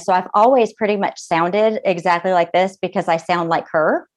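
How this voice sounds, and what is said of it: Southern US accent. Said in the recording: “my Southern accent ... my mama is a Southern debutante, North Carolina”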